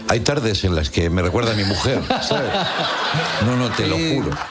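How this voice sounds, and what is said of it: Put-on Argentine Spanish accent. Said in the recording (Spanish): “Segundo programa en Argentina. ... ¿Te sale el acento? ... Sí, me sale el acento, che”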